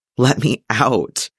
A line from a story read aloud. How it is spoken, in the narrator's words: he begged